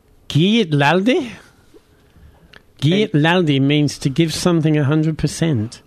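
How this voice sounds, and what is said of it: Attempted Scottish accent. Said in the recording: “Let's have a Scottish accent off ... I can't do accents.”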